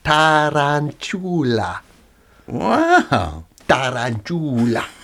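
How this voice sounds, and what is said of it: Slow mock Italian accent. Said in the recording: “say it slowly and in an Italian accent”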